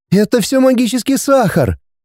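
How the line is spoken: Cheerful young woman. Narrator (Russian): весело сказала девушка

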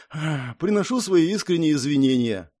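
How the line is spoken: Sighing. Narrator (Russian): вздохнул я

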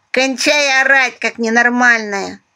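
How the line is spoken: Hoarse after coughing. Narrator (Russian): откашлявшись, прохрипела дурачок

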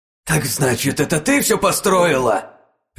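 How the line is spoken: Angry bark rising to shout. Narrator (Russian): рявкнула зло Хаарса, переходя на крик

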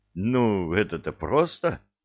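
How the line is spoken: Amused grunt. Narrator (Russian): хмыкнул Кевин

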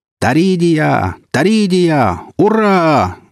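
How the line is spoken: Yelling battle cry. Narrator (Russian): заорал я

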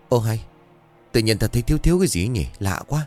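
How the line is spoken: Muttered. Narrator (Vietnamese): Bột lầm bầm

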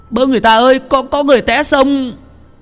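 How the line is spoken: Crying out. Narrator (Vietnamese): Tùng la lên

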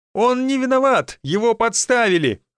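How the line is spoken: Desperate shout. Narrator (Russian): в отчаянии выкрикнул Сергей Станиславович

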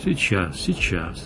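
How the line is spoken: Gentle speech. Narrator (Russian): ласково сказал шеф

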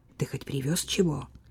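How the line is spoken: Worried whisper. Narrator (Russian): озабоченно шепнула она сыну

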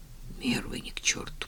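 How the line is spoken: Muttered. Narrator (Russian): пробормотал он

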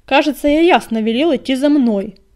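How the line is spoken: Barking. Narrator (Russian): рявкнул он

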